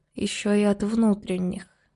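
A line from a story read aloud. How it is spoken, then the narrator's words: Quiet mumble. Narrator (Russian): тихо пробормотала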